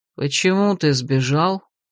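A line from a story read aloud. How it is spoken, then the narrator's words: Weary question. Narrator (Russian): устало спросил маг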